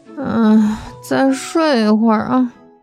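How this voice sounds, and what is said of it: Quiet, impatient sleepy mumble. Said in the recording (Chinese): “不耐烦地翻了一个身， 小声地嘟囔说”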